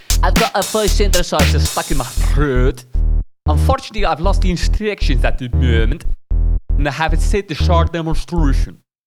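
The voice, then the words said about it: Bad put-on English accent. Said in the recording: “this really terrible English accent”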